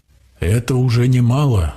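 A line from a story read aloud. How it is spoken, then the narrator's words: Exclaiming. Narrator (Russian): воскликнула Ади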